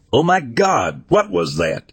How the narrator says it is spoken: My friend yelled

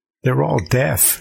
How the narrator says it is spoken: she said with a giggle

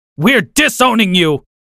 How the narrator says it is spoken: my dad screamed

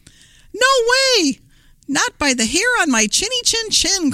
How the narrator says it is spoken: cried the second little pig

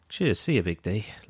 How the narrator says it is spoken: Harry just under his breath goes

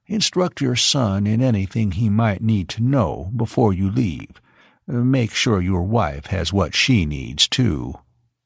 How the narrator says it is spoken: Horley said, and in a whisper

